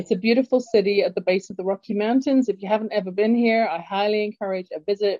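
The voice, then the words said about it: English London accent. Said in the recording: “as you can tell from my accent, I was born in London, England originally.”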